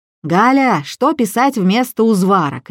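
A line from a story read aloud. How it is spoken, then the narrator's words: Shouting. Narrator (Russian): кричала тетя Валя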